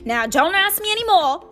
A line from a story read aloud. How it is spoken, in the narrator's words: said Hagrid gruffly